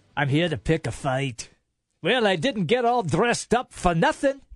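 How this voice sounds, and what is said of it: Put-on film character accent. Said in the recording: “I always love that from Braveheart ... Your accent's incredible”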